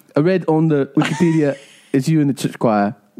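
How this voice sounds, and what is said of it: Imitated British island-style accent. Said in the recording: “he's like British islandy, though, right? Like he's islandy.”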